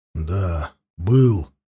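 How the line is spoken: Muffled, hollow reply. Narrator (Russian): глухим голосом ответил Махнач

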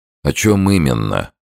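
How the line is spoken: Gloomy question. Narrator (Russian): мрачно спросил Сомс

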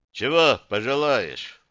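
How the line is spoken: Deep bass, big man. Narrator (Russian): пробасил здоровяк

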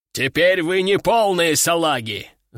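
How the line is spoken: General yelling. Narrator (Russian): заорал генерал

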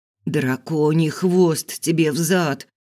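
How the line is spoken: Boy's groan, coughing. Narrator (Russian): Простонал мальчишка и закашлялся

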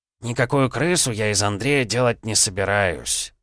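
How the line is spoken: Sighing. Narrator (Russian): вздохнул Аполлонов

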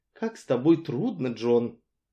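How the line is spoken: Weary. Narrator (Russian): Устало промолвила она

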